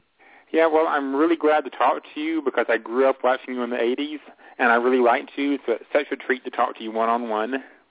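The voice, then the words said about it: Regional American accent. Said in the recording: “I hear an accent.”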